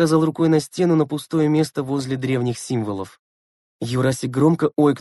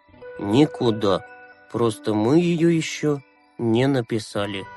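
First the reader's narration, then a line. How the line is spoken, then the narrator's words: Muffled, flat. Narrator (Russian): глухо ответил Юрасик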